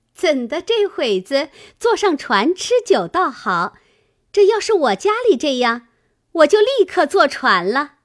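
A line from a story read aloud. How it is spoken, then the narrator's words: Laughing. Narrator (Chinese): 湘云笑道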